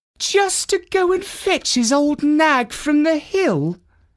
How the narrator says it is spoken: exclaimed Finette

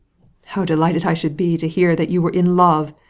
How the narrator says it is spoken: exclaimed Levin

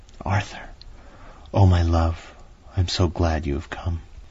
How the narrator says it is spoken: she whispered softly

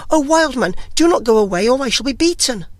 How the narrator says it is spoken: He called and cried after him

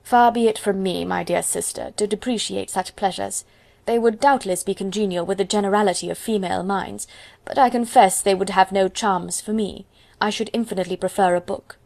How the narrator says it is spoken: Mary gravely replied

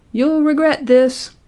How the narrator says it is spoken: he shouted

